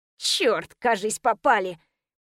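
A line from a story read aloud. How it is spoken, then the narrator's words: Hissed through teeth. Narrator (Russian): Прошипела сквозь зубы Римка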